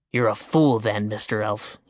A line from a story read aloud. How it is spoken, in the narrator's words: he growled